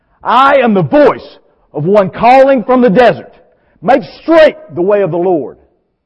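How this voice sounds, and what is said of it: Loud shouted proclamation. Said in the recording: “in a loud voice, I shouted out”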